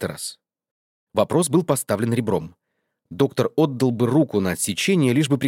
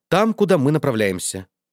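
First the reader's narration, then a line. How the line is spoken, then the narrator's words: Calm. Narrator (Russian): спокойно ответил Альтамонт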